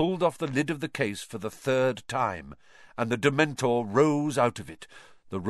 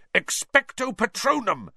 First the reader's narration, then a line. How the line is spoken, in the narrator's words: Harry bellowed